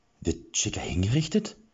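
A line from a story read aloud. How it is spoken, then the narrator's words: Anxious question. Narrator (German): fragte Erik ängstlich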